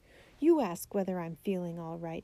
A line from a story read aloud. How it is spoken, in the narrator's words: he cried